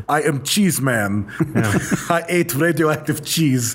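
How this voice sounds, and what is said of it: Bad put-on Russian accent. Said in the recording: “That's a horrible Russian accent.”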